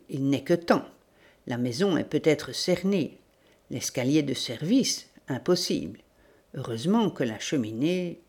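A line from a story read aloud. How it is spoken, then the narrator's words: Murmured. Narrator (French): murmura-t-il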